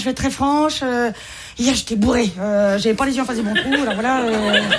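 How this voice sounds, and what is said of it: Marseille French accent. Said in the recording (French): “Je m'y connais un accent, hein, je suis marseillaise.”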